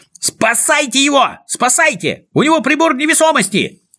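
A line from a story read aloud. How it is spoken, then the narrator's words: Frantic scream. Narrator (Russian): Истошно завопил Знайка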